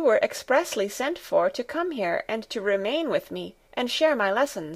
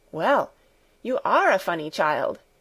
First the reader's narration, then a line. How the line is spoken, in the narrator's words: exclaimed Clara